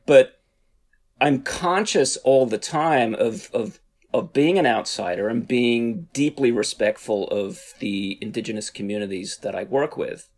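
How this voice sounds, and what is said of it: Australian accent, partly Americanized. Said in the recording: “I'm originally from Australia. I've lived in the US now for over 20 years. So my accent goes back and forth.”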